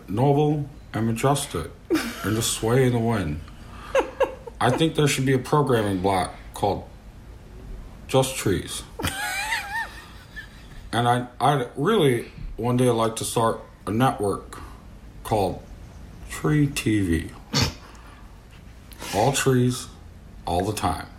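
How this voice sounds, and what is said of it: Slow, sleepy, soothing imitated voice. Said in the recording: “it's kind of what he sounds like. I don't do a great Joe Pera impression... I'm a really big fan of your Joe Pera impression... like just then, I felt like I wanted to have a little nap... he will put you to sleep in the best way”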